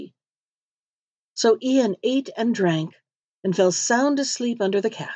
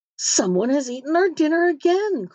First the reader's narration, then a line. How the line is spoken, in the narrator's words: cried they